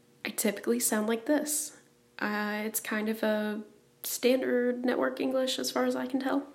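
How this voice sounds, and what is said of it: Usual voice. Nothing is said of it.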